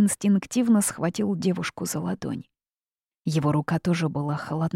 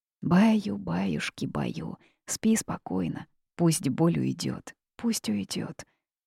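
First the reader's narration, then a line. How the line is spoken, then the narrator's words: Soft crooning murmur. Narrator (Russian): приговаривая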